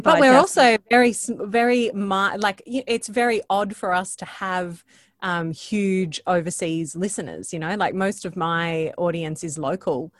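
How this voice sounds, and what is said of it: Australian accent. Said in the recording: “I don't know if it's the accent or what, but it's hard for us to break outside the Australian market”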